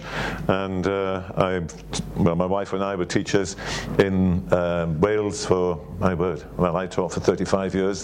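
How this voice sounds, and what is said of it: Welsh accent. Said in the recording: “as you can tell from my accent, I'm Welsh”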